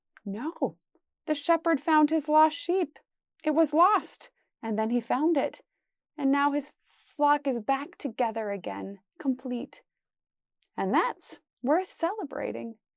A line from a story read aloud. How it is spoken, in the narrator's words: The other person whispered